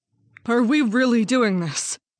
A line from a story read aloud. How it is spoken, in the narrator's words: Maria asked as she looked anxiously at Alan